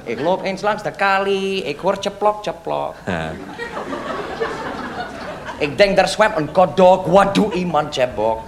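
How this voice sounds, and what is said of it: Put-on foreign accent, Yiddish-sounding. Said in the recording (Dutch): “Ik zal met mijn accent praten, ja? Ik praat met mijn accent ... Oh, je bent Jiddisch ... Ik zag iets van Max Tailleur in je”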